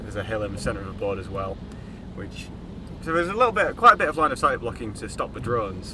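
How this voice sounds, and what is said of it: Yorkshire northern English accent. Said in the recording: “He's gone northern again. He's gone no, northern. ... well, Midlands. ... Sounds up Yorkshire. ... Mate, I'm from Yorkshire.”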